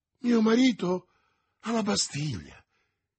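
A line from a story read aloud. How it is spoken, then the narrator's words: Exclaimed. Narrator (Italian): esclamò Madame Bonacieux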